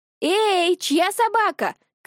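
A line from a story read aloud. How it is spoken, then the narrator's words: Shouting. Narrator (Russian): крикнула Дарина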